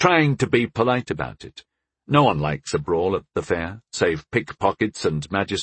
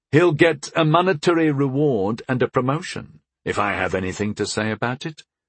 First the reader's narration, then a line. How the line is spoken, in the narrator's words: continued calmly